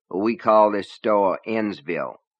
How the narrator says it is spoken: the voice said

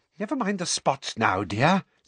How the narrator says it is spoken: said Umbridge impatiently

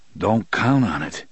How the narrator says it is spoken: Eddie said gloomily

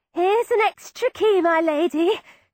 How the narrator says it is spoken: cried a shaky voice outside

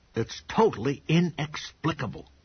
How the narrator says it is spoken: Pop said, triumphantly

